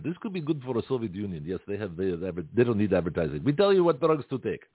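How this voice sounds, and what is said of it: Put-on Russian accent. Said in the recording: “Maybe break into a Russian accent ... break into different accents randomly”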